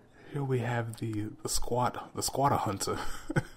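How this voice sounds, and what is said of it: Australian-accented documentary narration. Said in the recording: “you could get like an Australian accent and just narrate it”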